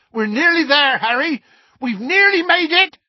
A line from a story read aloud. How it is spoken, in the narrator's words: shouted Hagrid